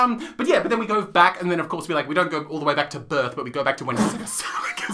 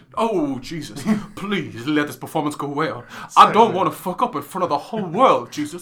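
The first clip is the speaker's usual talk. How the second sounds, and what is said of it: Imitates another person's voice. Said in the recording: “do the voice again? I really like your impression.”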